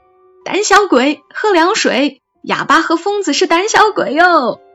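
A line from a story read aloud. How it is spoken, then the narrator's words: Jeering shout. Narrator (Chinese): 他们就围在门口叫嚣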